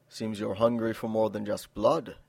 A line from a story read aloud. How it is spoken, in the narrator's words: purred